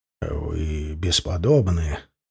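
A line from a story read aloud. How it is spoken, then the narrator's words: Stranger speaking quietly. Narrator (Russian): тихо сказал незнакомец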